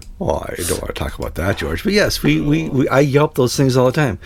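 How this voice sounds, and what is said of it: Deep, congested nasal voice. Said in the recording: “my voice is deeper and my nose is more nasally. I'm dealing with the pollen issues”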